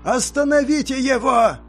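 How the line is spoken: Mage shouting. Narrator (Russian): закричал маг

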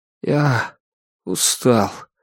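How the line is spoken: Lifeless voice. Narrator (Russian): промолвил он безжизненным голосом

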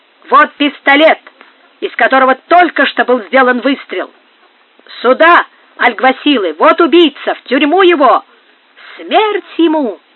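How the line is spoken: Crowd shouting. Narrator (Russian): Так кричали со всех сторон

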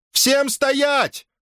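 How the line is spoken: Shouted. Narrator (Russian): крикнула она

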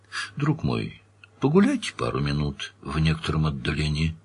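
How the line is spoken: Quiet command. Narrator (Russian): тихо распорядился Данил

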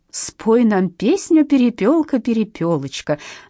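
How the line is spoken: Forced cheerful singsong. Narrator (Russian): затянула она неестественно бодрым голосом

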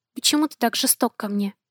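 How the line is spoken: Quiet question. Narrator (Russian): спросила тихо

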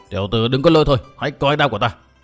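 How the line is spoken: Shouted loudly. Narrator (Vietnamese): tên đứng bên trái đã quát lớn

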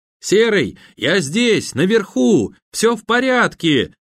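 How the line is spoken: Shouting from above. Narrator (Russian): закричал Данила с крыши

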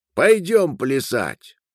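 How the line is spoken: Shout. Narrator (Russian): Дареш крикнул

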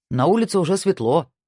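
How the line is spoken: Plain. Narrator (Russian): сказал Марк

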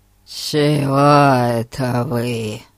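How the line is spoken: Creaky-voiced question. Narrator (Russian): Своим скрипучим голосом спросил мистер Ларкин

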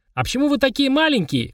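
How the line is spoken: Shouted. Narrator (Russian): крикнул

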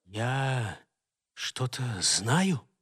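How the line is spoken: Whispered. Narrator (Russian): прошептал он

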